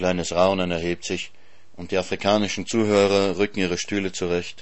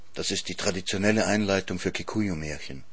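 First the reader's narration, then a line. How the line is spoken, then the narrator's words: Whispered aside. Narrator (German): flüstert mir Elsa Greich zu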